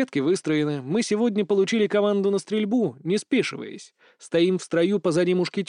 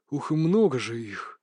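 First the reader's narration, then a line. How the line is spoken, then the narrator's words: Murmured whisper. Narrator (Russian): пронесся шепоток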